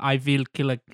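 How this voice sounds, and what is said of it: Put-on German accent. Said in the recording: “I don't know why I gave him a German accent there.”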